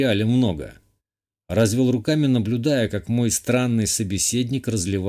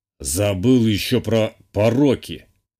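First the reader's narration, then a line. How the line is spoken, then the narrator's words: Old man's snort. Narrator (Russian): хмыкнул старик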